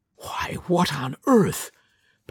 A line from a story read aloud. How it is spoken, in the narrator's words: panted Miss Ives